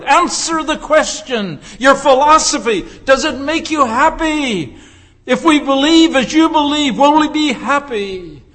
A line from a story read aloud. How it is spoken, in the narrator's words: the crowd shouted